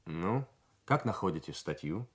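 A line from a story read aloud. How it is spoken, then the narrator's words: Plain. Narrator (Russian): спросил капитан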